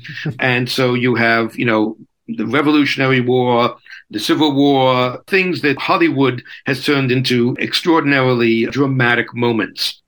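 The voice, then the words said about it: Brooklyn New York accent. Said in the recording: “as you guessed from the accent, I am from Brooklyn, New York”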